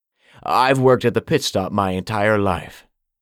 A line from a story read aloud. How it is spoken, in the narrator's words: Smitty answered